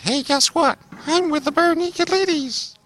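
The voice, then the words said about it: Imitates another person's voice. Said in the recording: “That's a great impression. Great impression. ... Down to a T.”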